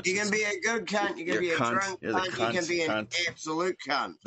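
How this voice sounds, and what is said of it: New Zealand accent. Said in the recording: “Kiwis are always saying cunt... it's just the accent is what makes it sound that way... It's the vowel sound is what changes it.”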